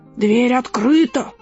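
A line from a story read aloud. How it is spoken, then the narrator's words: Hoarse growl. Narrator (Russian): прорычал хриплым голосом волк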